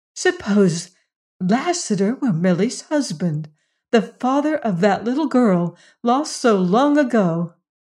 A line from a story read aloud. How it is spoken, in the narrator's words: cried Jane when they were out of hearing